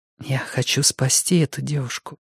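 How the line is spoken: Quiet reply. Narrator (Russian): тихо ответила Сага

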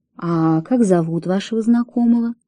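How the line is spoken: Quiet question. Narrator (Russian): тихо спросил Фрэнсис Дэви

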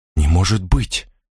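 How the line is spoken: Forced out. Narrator (Russian): выдавила она

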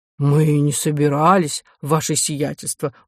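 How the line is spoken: Gruff mutter. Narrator (Russian): буркнул камергер

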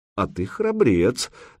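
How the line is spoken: Mocking tone. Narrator (Russian): насмешливо произнес Санек тоже по-русски

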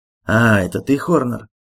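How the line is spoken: Grumble. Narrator (Russian): проворчал он

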